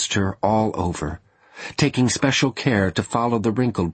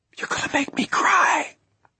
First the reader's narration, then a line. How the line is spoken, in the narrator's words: she whispered